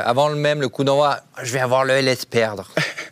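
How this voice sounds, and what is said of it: Put-on Vaudois accent, altered voice. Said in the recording (French): “tu mets un accent et, et voix différente quand tu dis ça ... l'accent vaudois”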